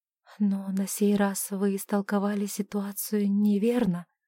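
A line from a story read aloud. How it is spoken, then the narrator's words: Barely audible. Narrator (Russian): еле слышно промолвила она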